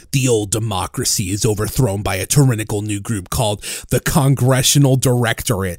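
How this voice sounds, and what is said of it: Audiobook narrator voice. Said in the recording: “put on my audiobook voice.”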